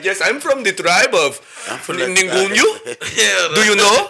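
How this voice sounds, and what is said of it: Put-on African accent. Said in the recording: “African accent”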